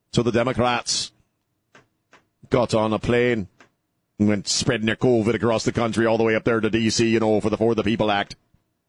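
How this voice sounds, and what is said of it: Bad put-on Irish accent drifting. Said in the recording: “That was the worst Irish accent I've ever done in my life. It started off as an Irish accent and then ended up somehow in Wisconsin.”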